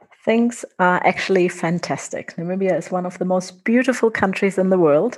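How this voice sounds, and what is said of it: German accent. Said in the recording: “as you might be able to tell from my accent, I'm not Namibian, I'm German”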